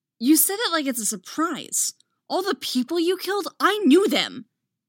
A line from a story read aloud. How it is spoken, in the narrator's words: Anakin snaps